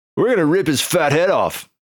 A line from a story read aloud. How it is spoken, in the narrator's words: shouted Burko